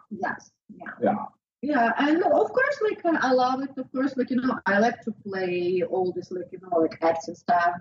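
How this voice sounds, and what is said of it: Non-native English accent. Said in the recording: “especially with like, my accent... it helps me to speak English”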